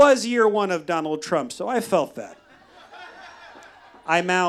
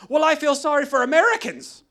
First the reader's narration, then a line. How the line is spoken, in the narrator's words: The woman, not wasting a second, yelled back